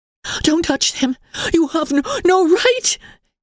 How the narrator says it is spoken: gasped Emily frantically

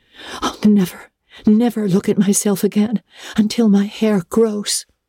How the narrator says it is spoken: she exclaimed passionately

